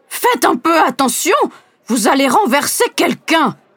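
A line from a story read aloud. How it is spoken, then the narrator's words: Elderly woman exclaiming. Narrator (French): s'exclame une dame âgée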